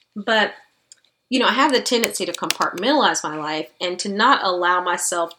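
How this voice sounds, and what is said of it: Slightly scratchy voice. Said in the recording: “You all can hear my voice is a little scratchy.”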